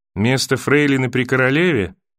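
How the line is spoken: Dull flat question. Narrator (Russian): тусклым голосом спросила она

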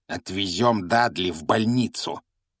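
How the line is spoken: Angry growl. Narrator (Russian): прорычал дядя Вернон

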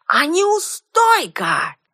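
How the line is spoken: Old man shouting after. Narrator (Russian): крикнул старый маг мне вслед

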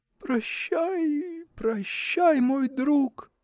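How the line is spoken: Sobbing farewell. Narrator (Russian): слышалось среди рыданий

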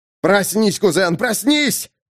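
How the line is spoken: Yelled. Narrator (Russian): орал Дэймон

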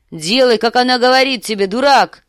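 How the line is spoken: Shout. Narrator (Russian): закричал сир Джорах

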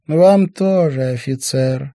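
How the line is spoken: Sugary singsong girl's voice. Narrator (Russian): елейным голоском пропела девушка

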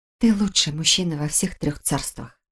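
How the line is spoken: Soft whisper. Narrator (Russian): ее тихий шепот

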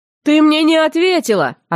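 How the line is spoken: Mocking shout. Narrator (Russian): откровенно зубоскаля крикнул северянин мне в спину

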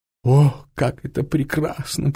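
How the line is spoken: Moan. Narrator (Russian): простонала Клара

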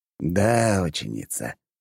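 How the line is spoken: Sighing. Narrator (Russian): вздохнул Белмар

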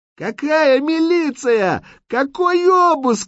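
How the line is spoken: Woman's frantic screaming. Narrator (Russian): истошно кричала высокая, крупная, черноволосая женщина

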